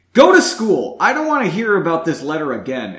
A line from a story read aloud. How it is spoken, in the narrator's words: Erin's mother yelled back